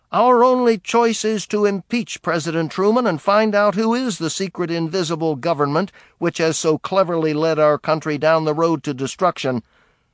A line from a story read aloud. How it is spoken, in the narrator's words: on the floor of the Senate, Jenner shouted